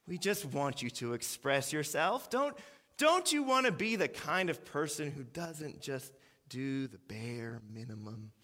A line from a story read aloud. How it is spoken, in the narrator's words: the manager sighs even more deeply and says